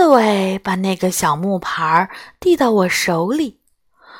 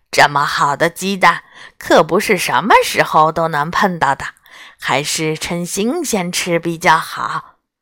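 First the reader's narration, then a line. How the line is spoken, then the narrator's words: Smiling. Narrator (Chinese): 他笑眯眯地说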